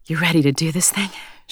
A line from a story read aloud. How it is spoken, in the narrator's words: asked breathlessly against his lips